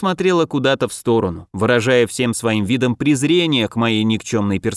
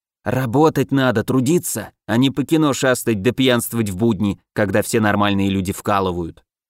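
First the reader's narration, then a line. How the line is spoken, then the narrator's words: Muffled venomous hiss. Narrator (Russian): глухое ядовитое шипение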